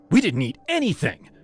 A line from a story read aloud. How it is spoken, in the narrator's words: Jess snapped